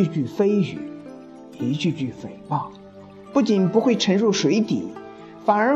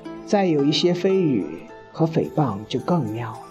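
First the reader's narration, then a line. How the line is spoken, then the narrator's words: Wistful exclamation. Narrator (Chinese): 世纪大师感叹说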